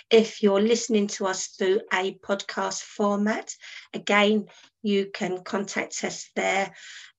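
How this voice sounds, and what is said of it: Hoarse, nearly lost voice. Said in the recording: “my voice is just about gone. My voice is just about gone now.”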